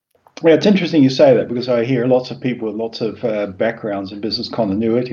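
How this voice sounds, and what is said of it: Mixed New Zealand-influenced English accent. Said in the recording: “what accents happening here ... I was born in New Zealand and I moved to Australia. Spent 3 years in Australia and then went to the UK for a year, and then I've been in the Netherlands for the last 30 or so years ... So there's a bit of everything in the accent.”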